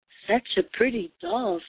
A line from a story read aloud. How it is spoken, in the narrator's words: said the baker